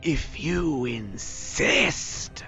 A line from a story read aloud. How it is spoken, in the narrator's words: he growls at you